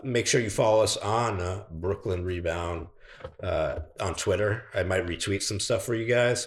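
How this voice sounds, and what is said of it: Hoarse, fading voice. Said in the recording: “I'm losing my voice because I'm emotionally invested in everything Brooklyn today and the weather's kind of gloomy”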